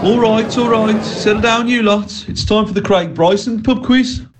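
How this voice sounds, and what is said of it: Put-on Brummie accent. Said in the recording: “Don't know why I went with the Brummie accent”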